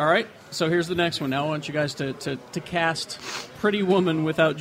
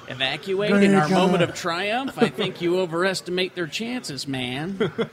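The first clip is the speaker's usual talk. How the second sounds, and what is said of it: Richard Grieco impression. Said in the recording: “that was a Richard Grieco impression ... It's kind of sounded like your Christian Slater impression ... Sounded like Christian Slater doing Jack Nicholson.”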